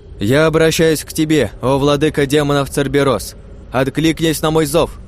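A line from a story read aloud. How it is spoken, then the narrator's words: Loud female knight. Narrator (Russian): Громко произнесла леди-рыцарь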